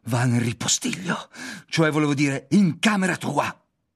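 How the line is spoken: Panting command. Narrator (Italian): intimò ansimando a Harry

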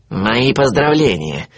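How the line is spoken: Gloomy. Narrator (Russian): мрачно произнес живодер

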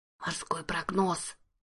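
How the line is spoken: Whispering. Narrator (Russian): Оскар прошептал

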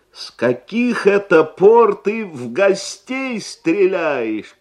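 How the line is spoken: Shouted. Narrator (Russian): крикнул дядя Сандро

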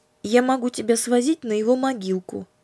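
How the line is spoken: Sad. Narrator (Russian): печально сказала Наташа

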